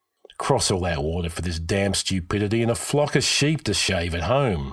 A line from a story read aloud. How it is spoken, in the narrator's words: Hakon grumbled